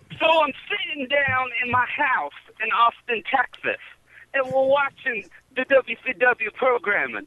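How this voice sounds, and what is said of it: Imitates another person's voice. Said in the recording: “do you guys want to hear a Dusty Rhodes impersonation?”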